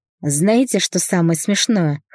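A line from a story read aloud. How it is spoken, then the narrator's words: Short laugh. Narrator (Russian): хохотнула Светка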